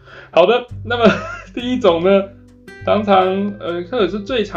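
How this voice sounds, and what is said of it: Usual voice. Nothing is said of it.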